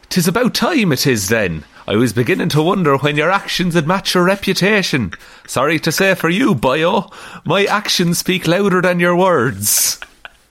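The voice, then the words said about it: Put-on Irish accent. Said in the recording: “his speech bubbles are Irish... I'm going to read this in the accent that it's written in”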